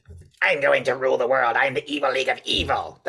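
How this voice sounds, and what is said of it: Evil cartoon villain voice. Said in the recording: “they all sound like Skeletor ... That was the evil voice.”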